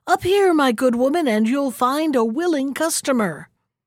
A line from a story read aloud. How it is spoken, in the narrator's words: shouted